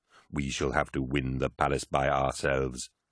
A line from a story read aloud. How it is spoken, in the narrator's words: replied Rylanor, his voice grating from deep within his sarcophagus